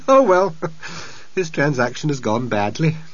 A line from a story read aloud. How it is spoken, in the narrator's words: he laughed and said